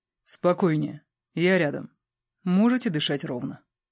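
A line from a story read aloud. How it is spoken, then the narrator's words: Velvety male voice, close. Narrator (Russian): произнес бархатным голосом мужчина прямо над моим ухом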